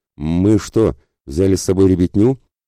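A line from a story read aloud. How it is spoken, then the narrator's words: Indignant question. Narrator (Russian): уже возмущенно вопросил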